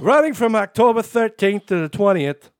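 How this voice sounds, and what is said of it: Put-on Brooklyn accent. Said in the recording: “do the rest of the story in a Brooklyn accent ... I've never been to Brooklyn, so I'm kind of winging it”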